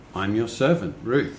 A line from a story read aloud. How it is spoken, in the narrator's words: she replied